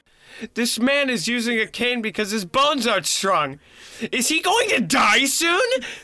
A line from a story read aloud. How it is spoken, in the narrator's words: my kid blurted out very loudly